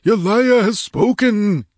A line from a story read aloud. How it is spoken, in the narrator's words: He cried in an exalted voice